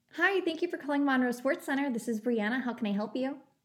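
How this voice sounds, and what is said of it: Overly nice customer service voice. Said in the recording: “customer service voice ... that's just the nicest ... of all time”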